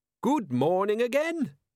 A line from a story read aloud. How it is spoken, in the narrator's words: he said brightly